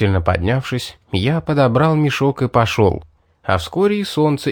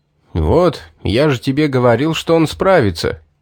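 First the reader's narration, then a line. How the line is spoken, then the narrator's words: Pleased snort. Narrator (Russian): довольно хмыкнул Стоун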